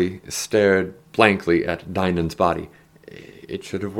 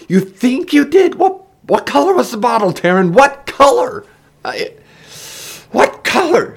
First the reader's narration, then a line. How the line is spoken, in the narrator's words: she screamed